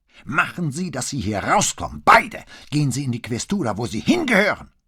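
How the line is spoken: Shouting. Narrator (German): schrie Santo Mauro

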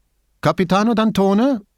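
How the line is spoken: Calling out. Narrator (German): rief er dem Mann zu

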